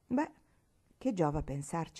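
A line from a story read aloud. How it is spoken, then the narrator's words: Sighing. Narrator (Italian): sospirò Marigold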